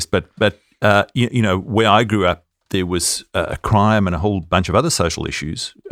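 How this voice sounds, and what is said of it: Australian accent, not South Australian. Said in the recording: “you can hear my accent's not from South Australia... a bit further... further west”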